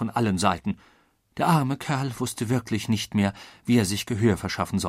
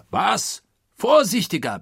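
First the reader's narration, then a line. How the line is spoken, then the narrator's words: Enraged roar. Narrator (German): brüllte nun Oberst Proctor, den dieses zufällig aufgefangene Wort in Harnisch brachte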